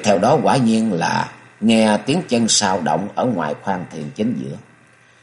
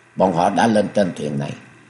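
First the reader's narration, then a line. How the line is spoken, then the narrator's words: Quiet voice. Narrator (Vietnamese): Hạ Gia Gia nói nhỏ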